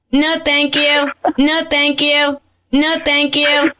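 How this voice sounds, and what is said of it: Imitates another person's voice. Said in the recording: “my impression of you to your grandma”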